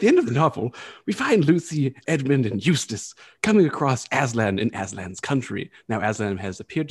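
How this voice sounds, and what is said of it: Usual voice. Nothing is said of it.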